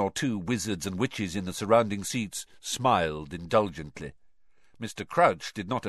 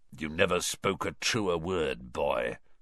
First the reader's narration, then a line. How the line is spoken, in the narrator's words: someone muttered dryly to Dumbledore behind Harry